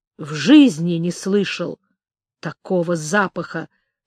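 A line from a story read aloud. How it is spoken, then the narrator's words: Slightly angry. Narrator (Russian): сказал Орех немного сердито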